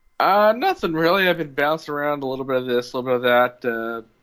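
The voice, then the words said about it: Slightly off voice from cold. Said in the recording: “If I sound weird, it's because I'm fighting off a bit of a cold”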